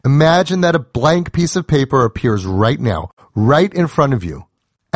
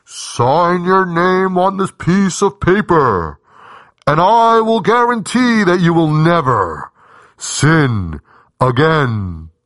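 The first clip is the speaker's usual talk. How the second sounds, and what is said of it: Put-on heavenly voice. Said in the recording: “you hear a heavenly voice ... that's my best way to do a heavenly voice.”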